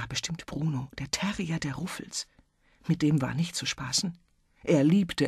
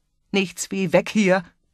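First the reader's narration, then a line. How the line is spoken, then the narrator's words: Roared. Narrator (German): brüllte Baldur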